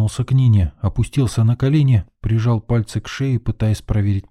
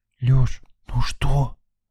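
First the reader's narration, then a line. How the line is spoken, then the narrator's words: Loud whisper. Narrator (Russian): Громким шепотом уточнила Лена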